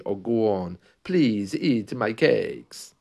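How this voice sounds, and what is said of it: Bad put-on Polish accent. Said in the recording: “it's a very bad Polish accent there”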